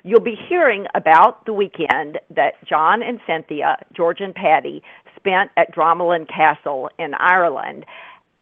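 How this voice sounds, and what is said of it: Southern US accent. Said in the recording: “my southern accent”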